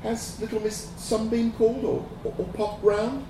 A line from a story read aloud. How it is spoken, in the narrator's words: asked Jolly, his voice hopeful